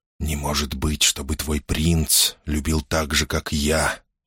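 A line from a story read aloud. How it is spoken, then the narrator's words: Barely audible whisper. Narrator (Russian): прошептал он едва слышно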